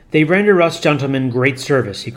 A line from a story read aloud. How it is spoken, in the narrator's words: he cried